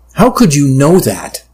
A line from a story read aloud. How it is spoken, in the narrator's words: I asked, feeling my voice rise